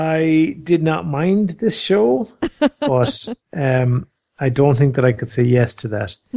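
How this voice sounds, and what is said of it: Usual voice. Nothing is said of it.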